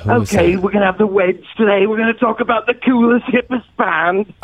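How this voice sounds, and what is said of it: Good British accent impression. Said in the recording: “that British guy... That's a pretty good accent.”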